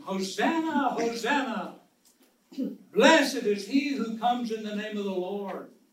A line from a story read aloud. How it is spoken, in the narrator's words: The people were shouting